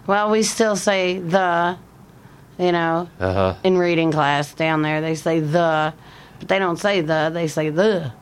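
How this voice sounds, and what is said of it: Southern American accent. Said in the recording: “I wouldn't have an accent then. I wouldn't have a southern. So there's that southern in there.”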